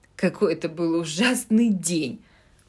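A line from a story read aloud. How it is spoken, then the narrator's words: Groaning. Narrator (Russian): простонала Джо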